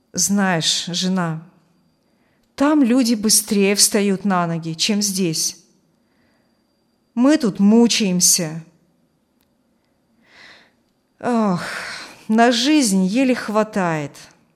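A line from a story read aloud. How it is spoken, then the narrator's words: Weary sighing. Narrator (Russian): вздохнул отец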